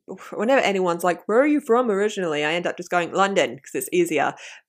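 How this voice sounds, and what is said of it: Common southeast English accent, monotonous tone. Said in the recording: “I think the tone of my voice is very monotonous... I think it's very boring... I think my accent is very, very common... I'm like more southeast than that”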